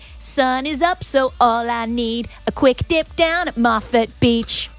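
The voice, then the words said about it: Put-on American accent. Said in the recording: “Don't know why you got the American accent”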